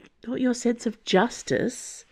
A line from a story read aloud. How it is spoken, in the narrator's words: Aramis whispered